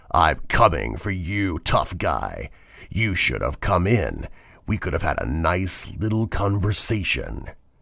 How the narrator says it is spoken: a deep, raspy voice said

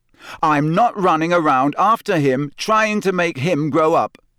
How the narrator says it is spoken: Harry said so loudly that several owls in a nearby tree took flight in alarm

